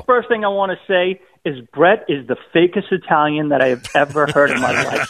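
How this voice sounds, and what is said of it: Boston accent. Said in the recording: “from Boston ... despite his accent”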